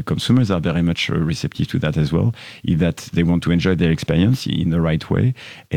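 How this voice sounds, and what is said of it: French accent. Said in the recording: “as you gathered from my accent already, I'm French”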